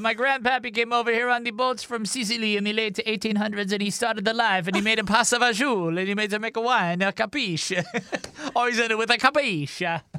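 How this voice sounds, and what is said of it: Poor put-on Italian accent. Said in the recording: “Every accent I do is like an Italian accent ... You're not that good.”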